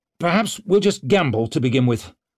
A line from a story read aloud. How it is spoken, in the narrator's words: snapped, disgusted